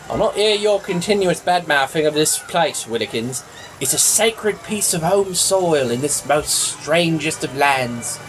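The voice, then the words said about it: English accent. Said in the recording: “Your accent. It's really impressive ... your actual English accent”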